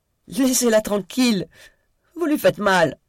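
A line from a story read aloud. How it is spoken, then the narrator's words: Trembling shrill child, fearful, enraged. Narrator (French): Il avait dit cela d'une voix tremblante d'enfant que la peur et la rage rendaient encore plus aiguë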